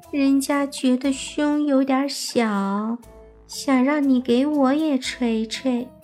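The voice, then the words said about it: Quiet, shy small voice. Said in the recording (Chinese): “小声的说道”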